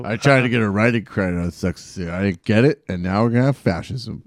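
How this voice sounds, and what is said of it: Impression of Steve Bannon. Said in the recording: “There's your Steve Bannon for the day.”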